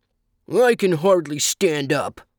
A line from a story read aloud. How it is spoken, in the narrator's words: grumbled the monkey